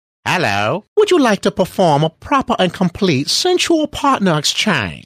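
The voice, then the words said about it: Proper, fancy posh British voice. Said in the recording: “they sound very proper and fancy ... they say it a little differently with more class and elegance ... A lot more polite ... doing the Bedhoppers voice”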